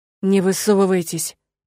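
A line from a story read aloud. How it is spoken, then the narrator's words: Hissed through teeth. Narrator (Russian): прошипел сквозь зубы Керт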